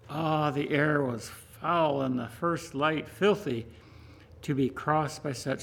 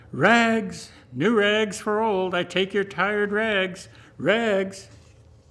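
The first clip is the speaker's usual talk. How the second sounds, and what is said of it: Clear tenor calling voice. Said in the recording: “calling in a clear tenor voice”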